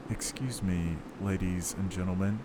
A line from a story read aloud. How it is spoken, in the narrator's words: said the sergeant